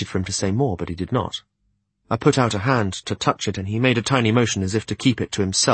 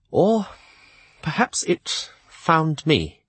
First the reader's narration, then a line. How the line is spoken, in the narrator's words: said shakily